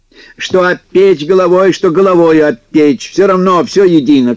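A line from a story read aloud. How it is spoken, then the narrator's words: Shout. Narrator (Russian): крикнул Кузька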